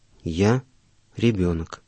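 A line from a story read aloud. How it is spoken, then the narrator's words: Mysteriously calm old man. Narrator (Russian): загадочно спокойно ответил старец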